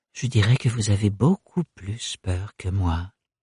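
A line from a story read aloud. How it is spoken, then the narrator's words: Murmured at last. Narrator (French): finit par murmurer le baron Melchior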